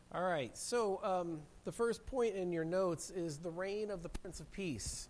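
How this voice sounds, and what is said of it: Hoarse, congested voice from a cold. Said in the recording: “I have a cold, and I've already started losing my voice”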